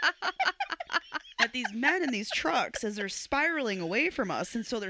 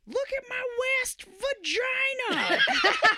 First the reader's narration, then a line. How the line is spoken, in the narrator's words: yelling out the the window